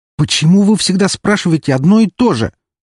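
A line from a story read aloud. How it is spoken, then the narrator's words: Furious shouted reply. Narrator (Russian): бешено закричал в ответ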